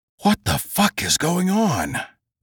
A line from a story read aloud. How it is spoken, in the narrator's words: Adam whispered